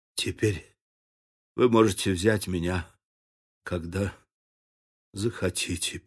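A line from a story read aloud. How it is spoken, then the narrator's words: Mumbling. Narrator (Russian): пробормотал он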